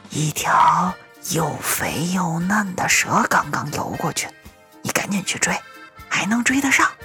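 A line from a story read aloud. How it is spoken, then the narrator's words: Old man, low voice. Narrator (Chinese): 爷爷低声说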